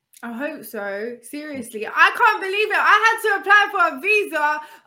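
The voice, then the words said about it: London accent. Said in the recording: “I sound like the most person, like London. You listen to my accent”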